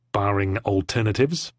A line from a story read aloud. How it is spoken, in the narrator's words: she replied through her teeth, without slowing